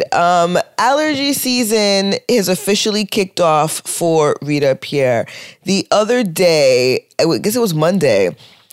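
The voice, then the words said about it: Deep, congested voice. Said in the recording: “my voice is a little on the deep side... my sinuses, you know, congested my throat was percolating with soreness”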